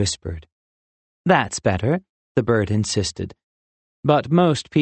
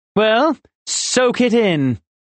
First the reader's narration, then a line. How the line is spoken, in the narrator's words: Clark chirped loudly